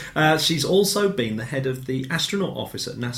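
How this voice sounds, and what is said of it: Usual voice. Nothing is said of it.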